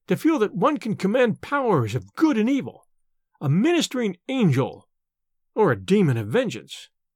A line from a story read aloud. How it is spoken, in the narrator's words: he cried